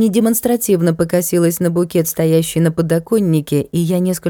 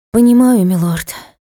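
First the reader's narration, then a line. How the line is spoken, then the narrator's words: Sighing. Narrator (Russian): вздохнула принцесса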